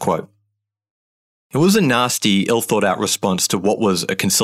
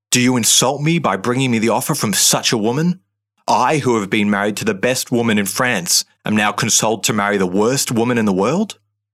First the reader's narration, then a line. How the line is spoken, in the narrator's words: In a bout of uncontrolled rage, he spat